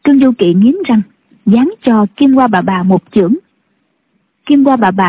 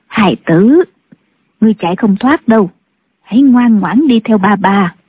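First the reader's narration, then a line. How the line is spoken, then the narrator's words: Soft, gentle. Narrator (Vietnamese): Kim Gia bà nhỏ nhẹ nói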